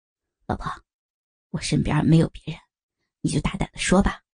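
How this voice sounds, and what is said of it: Speaking quietly, softly. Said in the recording (Chinese): “鲍瑞小声的说”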